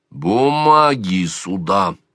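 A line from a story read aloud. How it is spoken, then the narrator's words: Metallic lower commanding voice. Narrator (Russian): распорядился Сварог металлическим голосом, уже на полтона ниже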